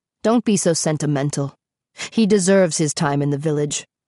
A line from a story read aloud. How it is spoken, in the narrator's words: the prince said coldly